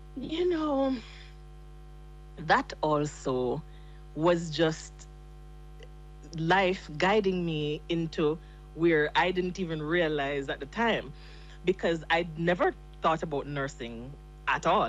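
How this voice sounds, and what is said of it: Thick Jamaican accent. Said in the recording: “your accent is so completely authentic ... you sound like us ... the accent is very thick, so it's kind of hard to hide”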